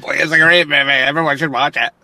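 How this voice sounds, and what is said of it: Exaggerated impression of his own voice. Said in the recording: “my impression of myself, because that's how I think I talk”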